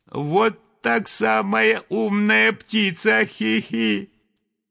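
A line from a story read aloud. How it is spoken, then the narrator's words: Giggling thin little voice. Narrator (Russian): послышалось хихиканье, и тоненький голосок сказал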